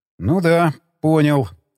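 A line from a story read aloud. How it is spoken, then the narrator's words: Plain. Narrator (Russian): ответил я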